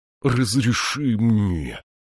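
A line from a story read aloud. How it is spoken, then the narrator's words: Pleading. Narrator (Russian): взмолился Утвард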